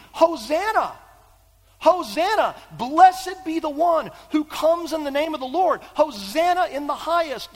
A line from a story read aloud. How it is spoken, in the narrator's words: The crowds who 5 days earlier are shouting